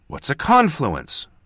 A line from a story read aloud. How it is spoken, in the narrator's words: said impatiently